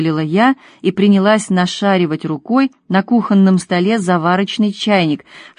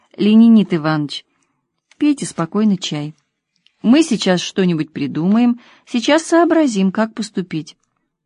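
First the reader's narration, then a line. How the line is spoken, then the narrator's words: Gentle, tender. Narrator (Russian): Томочка ласково … сказала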